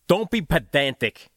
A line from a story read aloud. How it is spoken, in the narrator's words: he snapped